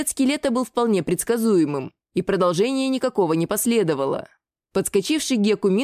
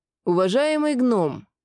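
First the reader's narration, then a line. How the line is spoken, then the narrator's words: Through gritted teeth. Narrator (Russian): процедил Мин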